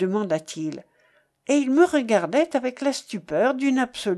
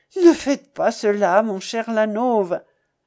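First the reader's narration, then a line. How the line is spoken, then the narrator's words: Pleading voice. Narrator (French): lui répondis-je en français moi aussi et d'une voix suppliante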